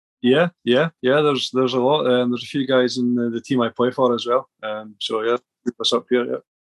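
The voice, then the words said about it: Scottish accent. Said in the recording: “Forgive me if I mishear you or don't quite get your accent ... somebody from Scotland”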